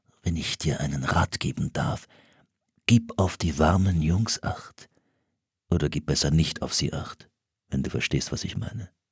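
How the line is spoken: Whisper. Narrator (German): Solomon … flüsterte

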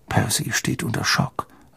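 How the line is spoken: Quiet speech. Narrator (German): sagte George leise zu Harry

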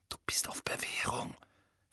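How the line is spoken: Whispering. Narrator (German): flüsterte

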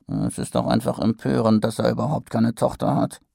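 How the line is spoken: Grumbling man. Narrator (German): brummte ein Drachenjäger

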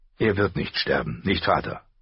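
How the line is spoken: Calm. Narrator (German): sagte er ruhig

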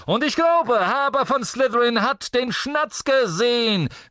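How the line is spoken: Shouted through megaphone. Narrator (German): rief Zachariah Smith durch sein Megafon

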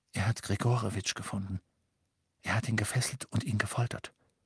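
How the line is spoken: Whisper into darkness. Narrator (German): flüsterte er in die Dunkelheit

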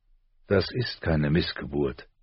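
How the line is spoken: Very calm. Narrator (German): sagte John ganz ruhig

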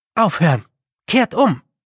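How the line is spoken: Calling out, inwardly weeping. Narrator (German): rief Tiffanys Stimme, doch innerlich weinte sie

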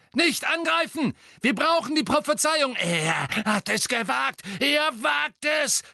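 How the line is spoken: Incoherent shriek. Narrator (German): kreischte Bellatrix zusammenhanglos

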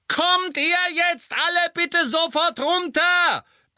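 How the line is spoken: Roaring. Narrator (German): brüllte Mrs

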